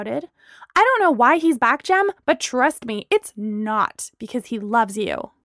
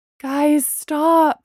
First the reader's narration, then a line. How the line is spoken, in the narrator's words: Bree pleaded